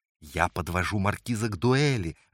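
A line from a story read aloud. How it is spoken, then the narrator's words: Joyful explanation. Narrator (Russian): радостно пояснил Сайм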